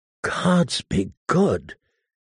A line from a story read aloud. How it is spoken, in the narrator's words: he said in a choked voice